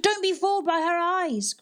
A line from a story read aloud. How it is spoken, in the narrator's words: cried Nan